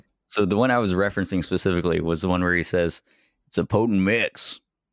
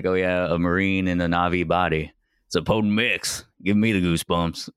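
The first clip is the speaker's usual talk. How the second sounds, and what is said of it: Good impression of a movie character. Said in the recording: “that's a good impression”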